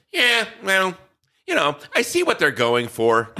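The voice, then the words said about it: Imitates another person's voice. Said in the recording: “This is my Tom Vassell impression.”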